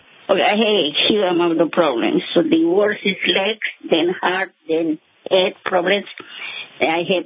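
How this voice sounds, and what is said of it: Colombian accent in English. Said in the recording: “Where's your accent from? ... Colombia.”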